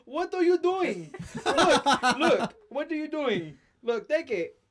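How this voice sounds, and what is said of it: Bad put-on Indian accent. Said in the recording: “That's the worst idiot accent I've ever heard.”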